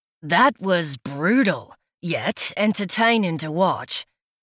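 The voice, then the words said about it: Thick, deep Australian accent. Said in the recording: “A thick, deep Australian accent”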